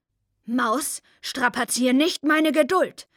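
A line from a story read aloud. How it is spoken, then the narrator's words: Grandmother roaring. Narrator (German): brüllt Oma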